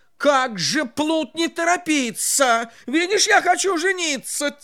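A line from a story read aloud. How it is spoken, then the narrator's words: King's angry shout. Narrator (Russian): Царь со гневом закричал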